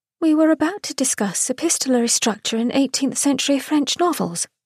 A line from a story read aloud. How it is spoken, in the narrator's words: Philippa murmured